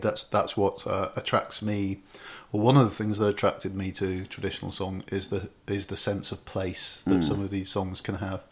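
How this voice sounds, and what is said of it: Birmingham (Brummie) accent. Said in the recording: “as you can tell from the accent ... It's extreme Brummy ... It's faded a bit ... I'm such a Brummy”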